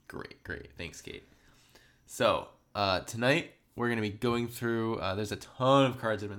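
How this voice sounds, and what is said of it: Voice a little off, sick. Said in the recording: “I'm sick. I'm, that's why my voice is a little off.”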